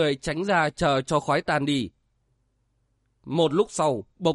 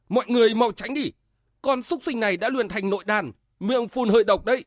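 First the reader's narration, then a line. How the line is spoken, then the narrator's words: Startled shout. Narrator (Vietnamese): Tiếu Diện Phật cả kinh lùi lại quát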